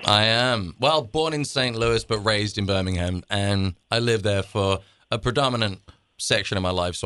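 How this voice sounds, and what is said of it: English Birmingham accent. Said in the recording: “No, the original Birmingham, that's where I got this accent from.”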